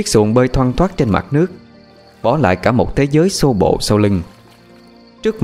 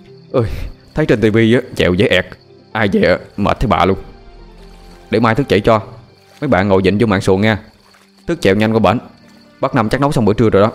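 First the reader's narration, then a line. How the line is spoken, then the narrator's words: Tired, sweaty mumbling. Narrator (Vietnamese): Mồ hôi đã nhễ nhại trên khuôn mặt, Hùng trả lại cái chèo cho Thức, miệng lầm bầm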